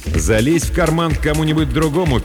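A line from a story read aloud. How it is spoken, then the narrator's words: Angry singing. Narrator (Russian): пел Сахар сердито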